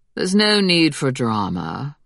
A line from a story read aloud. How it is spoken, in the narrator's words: Bremerton said in a smooth voice